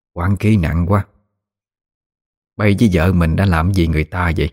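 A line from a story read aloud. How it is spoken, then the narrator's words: Familiar hoarse voice. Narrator (Vietnamese): cất giọng khàn khàn quen thuộc nói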